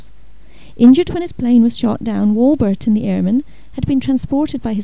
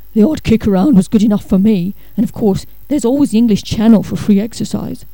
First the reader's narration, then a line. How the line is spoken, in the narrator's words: His dad not unexpectedly commented in a gruff voice